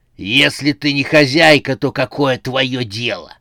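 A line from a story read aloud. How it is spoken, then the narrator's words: Rough, rude. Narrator (Russian): грубо сказал незнакомец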